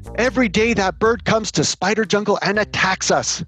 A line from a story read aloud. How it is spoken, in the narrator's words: yelled one spider